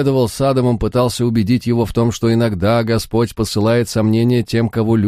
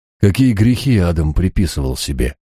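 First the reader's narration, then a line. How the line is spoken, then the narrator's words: Calm inquiry. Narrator (Russian): спокойно осведомился я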